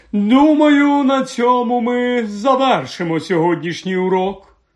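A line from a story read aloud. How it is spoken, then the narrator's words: Otherworldly voice. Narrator (Ukrainian): так промовила професорка Трелоні своїм потойбічним голосом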